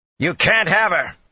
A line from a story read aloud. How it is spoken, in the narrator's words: he said loudly